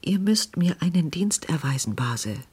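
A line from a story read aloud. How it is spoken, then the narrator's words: Hurried anxious whisper. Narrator (German): flüsterte in unruhiger Hast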